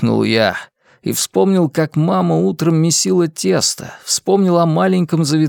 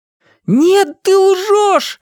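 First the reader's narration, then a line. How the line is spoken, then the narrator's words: Yelling. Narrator (Russian): заорал я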